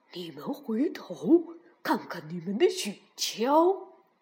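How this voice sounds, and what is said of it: Quiet, hushed speaking voice. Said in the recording (Chinese): “他弯下腰，冲着两人眨眨眼，小声地说”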